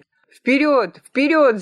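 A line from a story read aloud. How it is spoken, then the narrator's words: Shouting. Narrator (Russian): закричал Чивка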